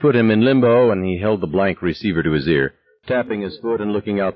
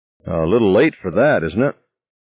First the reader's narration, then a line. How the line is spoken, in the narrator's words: Ordner sighed and then said with good-humored reserve